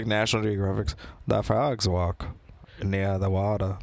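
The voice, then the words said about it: Poor Morgan Freeman impression. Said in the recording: “I could do a good Morgan Freeman... That was terrible... I told you I couldn't do a good one”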